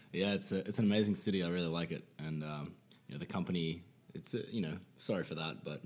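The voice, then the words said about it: Strong Australian accent. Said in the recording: “He's Aussie, so I hope you guys are going to be able to understand him. His accent is pretty strong”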